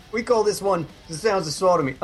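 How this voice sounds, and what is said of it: Put-on Dublin Irish accent. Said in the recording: “I'm not quite sure why I'm doing this accent. ... Dublin. It was either that or my Indian accent.”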